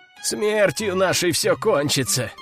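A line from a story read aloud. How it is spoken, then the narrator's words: Groaning. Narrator (Russian): простонал Игорь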